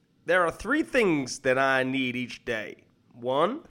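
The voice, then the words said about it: Matthew McConaughey impression. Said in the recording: “I'm gonna get Matthew McConaughey's speech up, and I'm gonna do it in his accent.”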